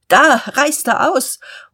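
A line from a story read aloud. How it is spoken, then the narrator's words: Call. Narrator (German): Gottlieb Hornung rief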